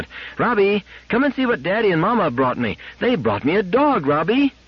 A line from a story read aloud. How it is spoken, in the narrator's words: shouting as she went